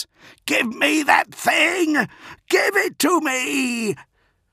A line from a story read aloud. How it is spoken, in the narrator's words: screamed at John Grammaticus